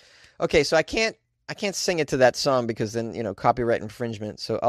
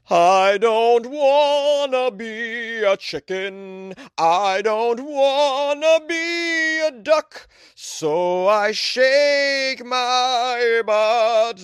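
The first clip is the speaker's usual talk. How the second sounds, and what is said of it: Singing in an opera voice. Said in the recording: “I'll do an opera voice.”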